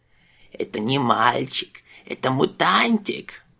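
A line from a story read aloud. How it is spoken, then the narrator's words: Hiss. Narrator (Russian): прошипела она юнцу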